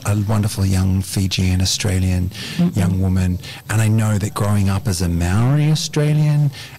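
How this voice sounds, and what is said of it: Australian accent. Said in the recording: “I got this Aussie accent now.”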